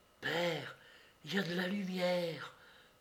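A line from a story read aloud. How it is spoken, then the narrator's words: Breathed softly. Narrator (French): souffla Georges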